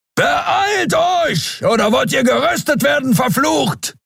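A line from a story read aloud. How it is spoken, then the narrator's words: Thundering voice. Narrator (German): donnerte Keru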